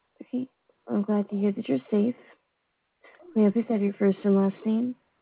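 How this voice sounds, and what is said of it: Muffled voice over phone. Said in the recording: “your phone is really muffled ... You sound super muffled”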